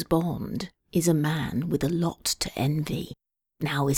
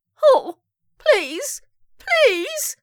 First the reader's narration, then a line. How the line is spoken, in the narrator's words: whimpered Violet